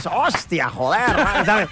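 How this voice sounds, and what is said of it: Exaggerated Spain Spanish accent. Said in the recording (Catalan): “com feu la imitació d'un accent espanyol? ... como lo imitamos también es súper cliché ... hacemos la voz muy así ... Muy exagerado, obvio ... L'has clavat.”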